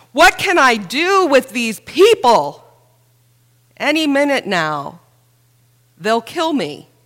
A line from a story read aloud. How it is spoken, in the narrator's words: Moses cried out in prayer to God